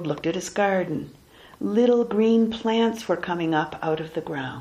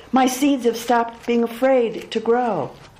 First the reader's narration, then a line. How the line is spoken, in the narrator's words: Toad shouted